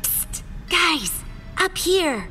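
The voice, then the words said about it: Urgent whisper. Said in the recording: “we heard faint whispering coming from below”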